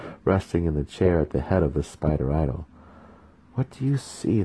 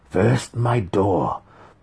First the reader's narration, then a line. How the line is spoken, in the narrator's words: the faceless one growled at him